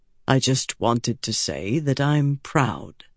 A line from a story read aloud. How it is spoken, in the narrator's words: Bryn told her softly